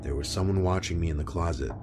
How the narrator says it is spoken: started whispering

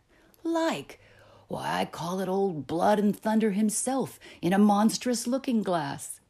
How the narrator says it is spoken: cried a third

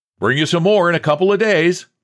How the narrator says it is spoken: He merely shouted

